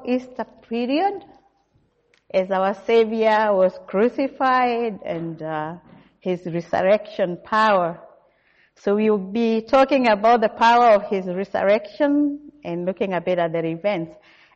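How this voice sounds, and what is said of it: Kenyan English accent. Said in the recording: “my accent sounds a bit different. I come from Kenya.”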